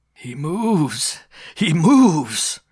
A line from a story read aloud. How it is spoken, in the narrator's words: Old Broughton cackled excitedly